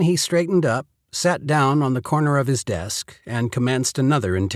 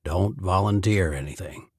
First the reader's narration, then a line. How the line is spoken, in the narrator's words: he said under his breath